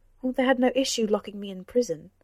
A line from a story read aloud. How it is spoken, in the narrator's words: snapped Cora